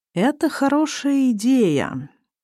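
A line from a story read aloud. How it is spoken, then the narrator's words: Slow speech. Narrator (Russian): медленно произносит Азамат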